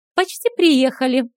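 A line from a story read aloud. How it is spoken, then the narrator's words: Joyful. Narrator (Russian): радостно сообщила Стесси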